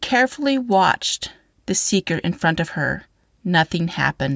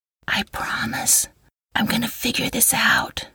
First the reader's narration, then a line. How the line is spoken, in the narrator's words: whispered